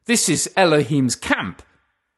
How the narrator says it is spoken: Jacob exclaimed

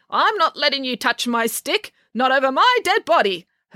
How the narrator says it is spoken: her friends giggled

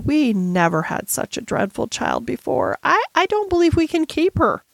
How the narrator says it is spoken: almost whimpered Miss Amelia

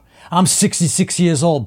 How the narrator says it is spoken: Pudgy yells after another victory

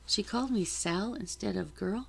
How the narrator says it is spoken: I asked

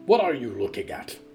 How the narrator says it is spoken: Riku barked

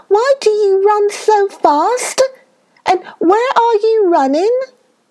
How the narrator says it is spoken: Another little rabbit called out

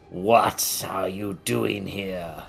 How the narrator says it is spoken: He almost hisses out

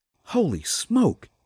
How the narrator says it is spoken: muttered

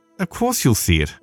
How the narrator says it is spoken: snapped Mary indignantly

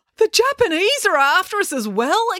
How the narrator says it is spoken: exclaimed Dad

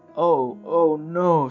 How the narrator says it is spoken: Sheikh Chilli cried

